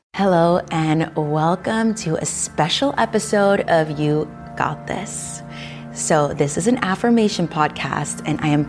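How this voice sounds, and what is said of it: Smooth, soft, calm voice. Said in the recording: “putting on my affirmation voice, which is a little smoother, a little softer... my yoga instructing voice”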